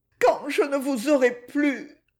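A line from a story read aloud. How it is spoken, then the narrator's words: Stifled sob. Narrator (French): Elle répéta, avec un sanglot étouffé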